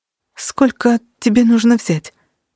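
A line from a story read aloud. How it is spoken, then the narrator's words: Uncertain whisper. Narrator (Russian): прошептала она неуверенно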